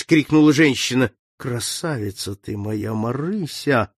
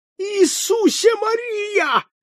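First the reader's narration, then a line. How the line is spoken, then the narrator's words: Shouting. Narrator (Russian): закричал Залзикевич, забыв о том, что принадлежал к вольнодумцам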